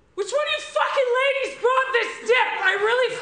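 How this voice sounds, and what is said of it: Raised, shouting voice. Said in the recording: “Look, I'm raising my voice now, and I don't do that a lot”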